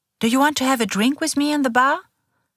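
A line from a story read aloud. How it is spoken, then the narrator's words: Cheerful question. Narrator (German): fragt sie fröhlich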